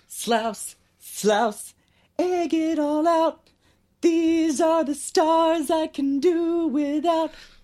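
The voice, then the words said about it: Poor falsetto singing. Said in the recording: “shitty falsetto”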